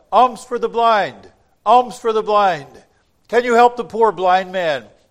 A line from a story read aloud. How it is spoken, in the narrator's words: possibly called out